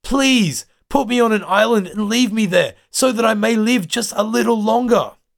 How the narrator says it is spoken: Jan pleads

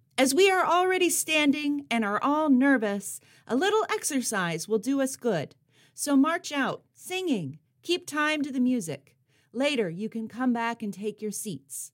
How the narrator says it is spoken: Quick on her toes, although her knees were trembling, she bellowed to the crowd

